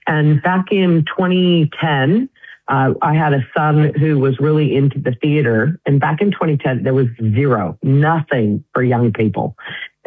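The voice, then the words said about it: American accent. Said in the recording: “obviously I'm an American. I think you can tell by my accent.”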